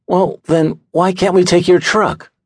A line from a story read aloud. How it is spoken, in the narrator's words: He groaned